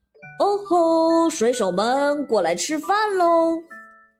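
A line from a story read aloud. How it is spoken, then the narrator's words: Father calling out. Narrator (Chinese): 爸爸过来喊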